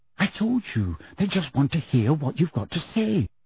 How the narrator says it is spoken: said Hermione soothingly

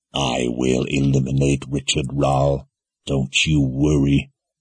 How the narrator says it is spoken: Jagang said in a low growl

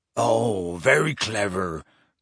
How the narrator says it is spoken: growled Hagrid

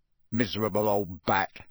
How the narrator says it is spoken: said Ron bitterly

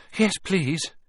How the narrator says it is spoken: Harry panted

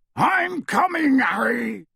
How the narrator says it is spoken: Hagrid yelled out of the darkness

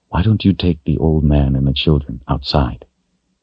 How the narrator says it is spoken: she said softly

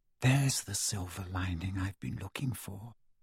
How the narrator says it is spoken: she whispered

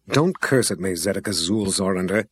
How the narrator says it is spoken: Delora grumbled back

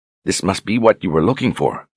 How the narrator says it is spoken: she said

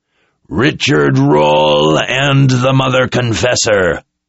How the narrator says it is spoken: the soldier bellowed in unrestrained rage

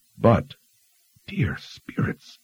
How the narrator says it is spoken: she whispered

